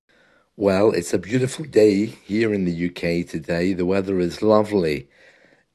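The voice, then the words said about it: Slightly rough, husky voice. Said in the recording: “My voice is a little bit rough today”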